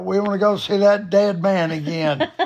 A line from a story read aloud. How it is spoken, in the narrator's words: they both screamed out